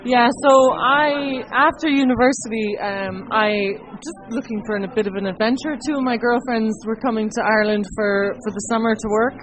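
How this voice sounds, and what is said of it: Irish accent. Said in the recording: “I've adopted the Irish accent”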